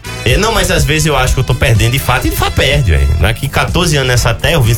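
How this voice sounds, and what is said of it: Natal northeastern Brazilian accent. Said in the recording (Portuguese): “passar ao menos um dia que fosse lá em Natal novamente. Porque ele tá perdendo sotaque ... aí o sotaque ataca”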